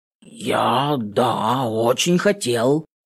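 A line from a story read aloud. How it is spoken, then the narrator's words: Hoarse callow youth. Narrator (Russian): хрипит этот желторотый Дон Жуан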